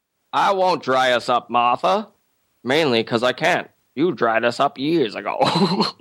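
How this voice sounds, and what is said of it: Bad impression of an old man. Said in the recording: “It's also a really bad impression.”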